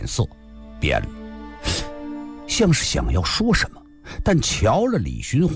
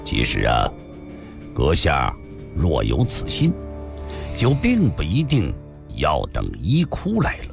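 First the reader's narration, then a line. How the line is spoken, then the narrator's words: Flat, indifferent tone. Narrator (Chinese): 李寻欢看了他一眼，淡淡的说道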